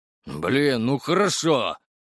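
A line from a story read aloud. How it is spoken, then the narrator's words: Angry, spat out. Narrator (Russian): зло выплюнул тот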